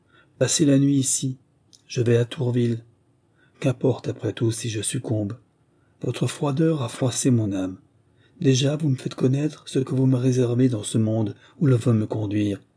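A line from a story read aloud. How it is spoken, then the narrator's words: Somber voice. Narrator (French): prononça Charles d'une voix sombre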